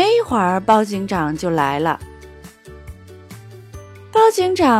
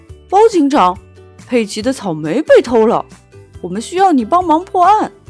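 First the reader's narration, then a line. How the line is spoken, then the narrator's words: Calling out. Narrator (Chinese): 乐迪呼叫包警长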